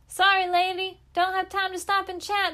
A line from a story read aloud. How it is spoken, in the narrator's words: the girl shouted